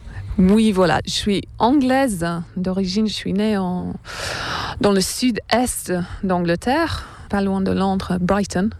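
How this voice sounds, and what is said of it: Slight foreign accent in French. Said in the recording (French): “on l'entend quand tu parles, tu as un petit accent, donc j'en déduis que tu n'es pas française”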